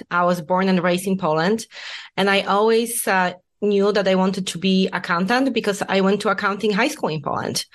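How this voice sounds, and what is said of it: Noticeable non-native accent. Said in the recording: “everyone can hear my lovely accent.”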